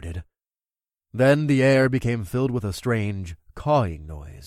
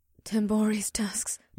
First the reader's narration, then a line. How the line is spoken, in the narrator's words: Batari gasped